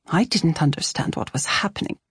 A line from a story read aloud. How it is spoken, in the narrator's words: Truda whispered to Mama and me